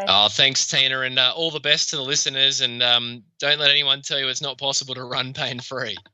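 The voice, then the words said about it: Australian accent. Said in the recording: “I just love the Australian one”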